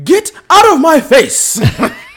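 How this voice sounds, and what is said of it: Angry imitation of another person's voice. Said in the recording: “my angry Howard Finkel impersonation.”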